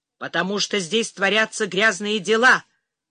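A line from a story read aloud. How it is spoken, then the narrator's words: Growled while walking. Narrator (Russian): прорычал Гелий уже на ходу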